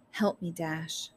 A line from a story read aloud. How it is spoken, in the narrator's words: said softly